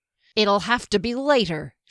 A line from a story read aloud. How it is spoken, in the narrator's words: snarled back